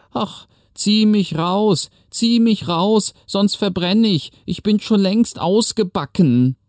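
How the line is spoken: Calling out. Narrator (German): das Brot rief

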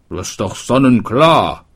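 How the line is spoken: Shoemaker calling out. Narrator (German): rief der Schuster

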